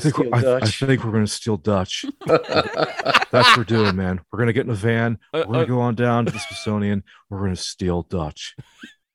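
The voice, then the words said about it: Imitates another person's voice. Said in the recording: “Very, very good Nicolas Cage impression”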